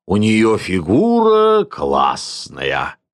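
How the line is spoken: Dreamy drawl. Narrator (Russian): мечтательно протянул фотограф

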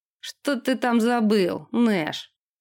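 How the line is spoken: Mocking question. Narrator (Russian): насмешливо спросил Джона

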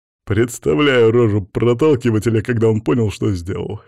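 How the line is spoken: Laughing. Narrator (Russian): Засмеялся Макс

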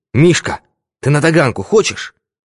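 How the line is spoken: Agitated question. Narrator (Russian): позвонил Синякин и взволнованно спросил

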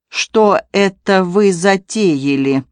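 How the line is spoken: Unfriendly, clipped, deliberate. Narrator (Russian): недобрым тоном, чеканя каждое слово, осведомилась Полина

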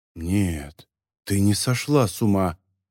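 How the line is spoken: Muttered. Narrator (Russian): пробормотала она

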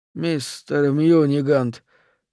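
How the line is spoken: Faint sigh. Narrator (Russian): чуть слышно вздохнул Харрис

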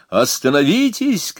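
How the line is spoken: Shouting. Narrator (Russian): кричал он

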